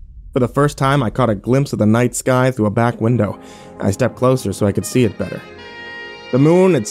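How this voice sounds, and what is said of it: Usual voice. Nothing is said of it.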